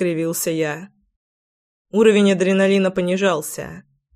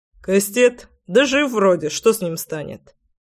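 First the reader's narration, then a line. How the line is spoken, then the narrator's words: Scoffing snort. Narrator (Russian): Хмыкнул Славик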